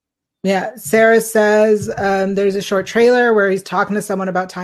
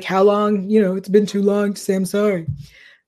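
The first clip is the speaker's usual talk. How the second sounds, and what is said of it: Imitates another person's voice. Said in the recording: “That's my Stabler impression. ... Good. He's really good.”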